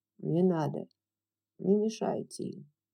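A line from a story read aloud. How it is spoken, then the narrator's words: Quiet male voice. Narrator (Russian): тихо сказал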